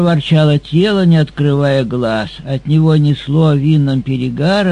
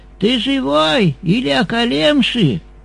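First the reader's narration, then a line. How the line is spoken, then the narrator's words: Shout. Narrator (Russian): он, наклонившись, закричал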